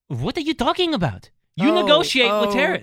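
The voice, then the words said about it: Put-on French accent. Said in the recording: “Don't do accents. ... I'm getting better. That was pretty good.”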